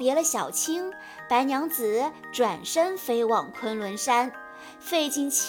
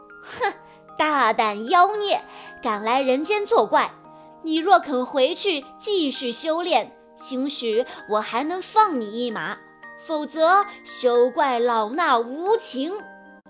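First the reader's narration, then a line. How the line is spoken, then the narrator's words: Sneering. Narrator (Chinese): 法海冷笑道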